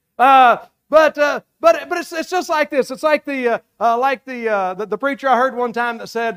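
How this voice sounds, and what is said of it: Speaks with a regional accent. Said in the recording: “y'all got to stick with my accent right here”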